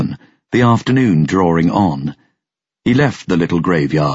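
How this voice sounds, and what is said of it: Usual voice. Nothing is said of it.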